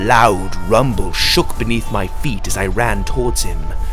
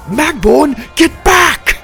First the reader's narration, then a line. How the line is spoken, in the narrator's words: shouted